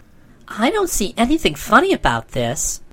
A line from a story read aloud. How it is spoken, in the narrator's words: remarked Trot rather indignantly